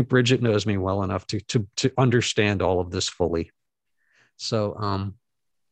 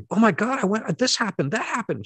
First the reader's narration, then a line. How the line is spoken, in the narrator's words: I'd … exclaim